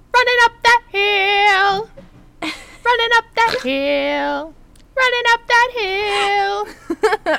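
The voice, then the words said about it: Sung imitation of a singer. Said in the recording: “my Kate Bush impression.”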